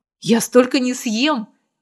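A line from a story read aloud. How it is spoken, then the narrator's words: Exclaiming. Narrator (Russian): воскликнула она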